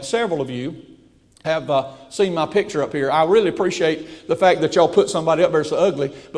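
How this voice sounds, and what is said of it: Slight regional accent. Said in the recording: “Y'all don't mind if I say ain't around here, do you? That's the way we talk back home... Somebody said I have a slight accent.”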